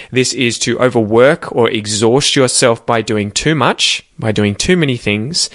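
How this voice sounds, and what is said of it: Australian English accent. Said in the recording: “sound like an Aussie ... If you want an Aussie accent, that's awesome. Try and copy me exactly.”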